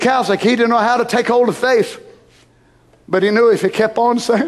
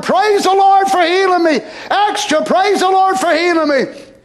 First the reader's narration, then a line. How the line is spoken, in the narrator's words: hollering